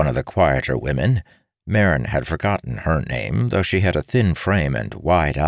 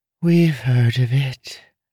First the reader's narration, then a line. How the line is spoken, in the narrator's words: she sighed wistfully